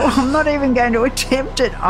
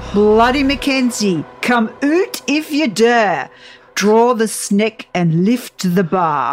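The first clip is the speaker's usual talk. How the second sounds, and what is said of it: Attempted Scottish accent. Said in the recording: “here comes her Scottish accent ... I'm going to butcher this”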